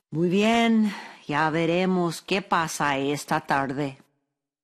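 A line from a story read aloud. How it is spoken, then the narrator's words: Distressed sighing speech. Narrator (Spanish): Don Ignacio quedó acongojado por la pérdida de todas las manzanas, pero suspiró y dijo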